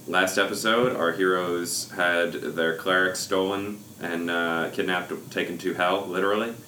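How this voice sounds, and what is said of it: Husky, sultry sore-throat voice. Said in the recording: “I am using my sexy voice because I have a sore throat ... You just use a sexy voice”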